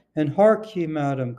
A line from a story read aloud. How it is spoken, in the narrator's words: cried the bawd